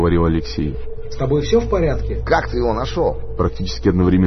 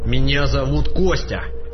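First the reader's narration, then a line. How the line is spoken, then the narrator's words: Through gritted teeth. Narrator (Russian): процедил силовик Леша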